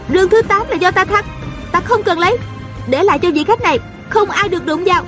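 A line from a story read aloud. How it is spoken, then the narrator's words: Shouting. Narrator (Vietnamese): A Cửu la lên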